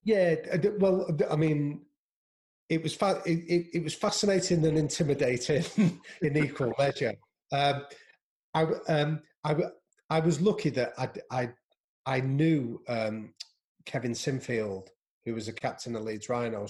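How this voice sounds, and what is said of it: Northern English accent. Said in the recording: “You've got the accent, so you're okay. You've got northern accents.”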